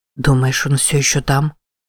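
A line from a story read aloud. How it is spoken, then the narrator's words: Whispered. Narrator (Russian): прошептал Сипи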